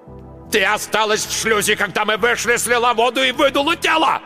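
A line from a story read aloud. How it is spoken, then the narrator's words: Yelling. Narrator (Russian): орал Марк Йоган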